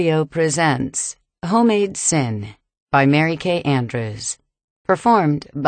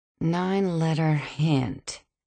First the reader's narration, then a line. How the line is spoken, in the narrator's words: I muttered, absent-mindedly